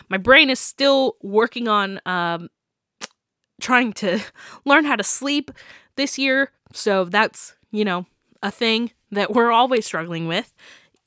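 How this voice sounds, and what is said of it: Stuffy, congested voice. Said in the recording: “I had a cold going into Christmas ... I'm currently battling a sinus infection thanks to my allergies. So if I sound stuffy, I am.”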